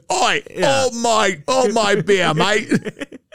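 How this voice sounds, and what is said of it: Bad put-on Australian accent. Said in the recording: “I became Australian all of a sudden ... It's so bad, dude.”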